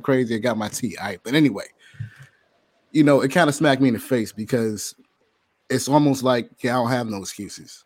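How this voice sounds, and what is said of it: Hoarse, cracking voice. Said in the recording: “Excuse my voice tonight ... I've been a little bit under the weather. My voice kind of crazy. So if you hear me cracking”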